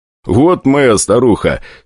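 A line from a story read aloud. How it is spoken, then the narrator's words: Giant speaking while laughing. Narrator (Russian): все еще смеясь проговорил гигант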